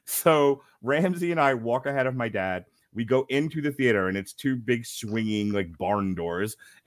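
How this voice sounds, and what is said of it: British accent. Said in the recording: “were you raised in Britain? ... raised in Oxford ... So that accent, yeah, I get it.”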